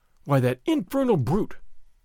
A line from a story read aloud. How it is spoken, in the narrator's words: Don Diego exclaimed